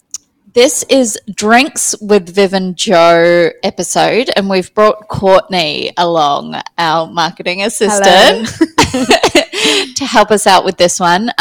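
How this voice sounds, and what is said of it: Australian accent. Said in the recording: “Excuse the Aussie accent that comes out when I drink.”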